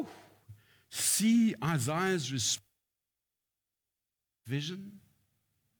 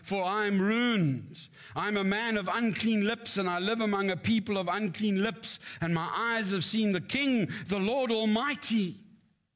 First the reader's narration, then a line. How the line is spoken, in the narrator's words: cried